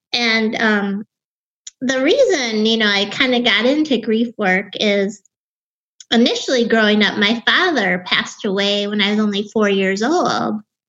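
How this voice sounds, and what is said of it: Wisconsin accent, young-sounding voice. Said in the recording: “you can probably hear my Wisconsin accent. And I also have a very young sounding voice as well.”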